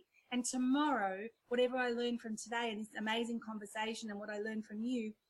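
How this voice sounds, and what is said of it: Slightly sick, off-sounding voice. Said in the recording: “I'm a little bit sick today, so my voice isn't right”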